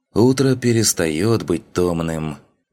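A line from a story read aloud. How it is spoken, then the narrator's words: Wry snort. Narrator (Russian): хмыкнул Луфи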